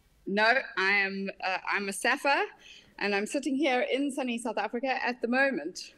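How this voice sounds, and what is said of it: South African accent. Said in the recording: “from your accent, I can tell you you're not from the UK”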